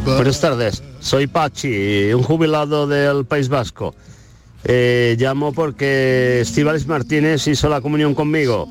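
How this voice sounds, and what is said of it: Mediocre put-on Basque accent. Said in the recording (Spanish): “creo que el acento es regular. Oh. El acento es regular”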